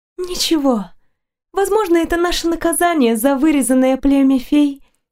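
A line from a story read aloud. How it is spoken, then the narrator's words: Exhaled words. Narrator (Russian): выдохнула Нориента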